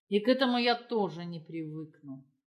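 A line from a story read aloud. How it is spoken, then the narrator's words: Much colder voice. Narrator (Russian): сказал любовник значительно более холодным голосом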